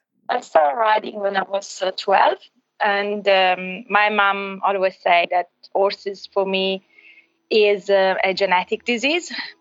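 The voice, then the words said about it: Italian accent. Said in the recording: “accent, she's actually on a call today from Italy ... I'm from Italy originally”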